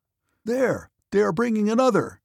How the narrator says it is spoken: cried one of the officers

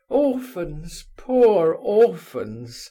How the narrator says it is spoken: he began in a pathetic voice

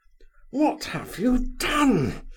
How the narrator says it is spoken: he hissed, glaring at her, as though he would like to annihilate her on the spot

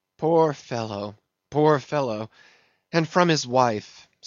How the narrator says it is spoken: sighed Mayhew

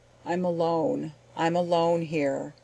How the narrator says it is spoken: said the voice

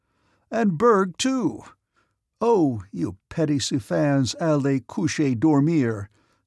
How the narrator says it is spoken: he exclaimed, imitating his Russian nurse's French

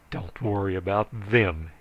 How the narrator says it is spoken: he snarled

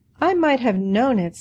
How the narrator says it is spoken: sighed Nancy

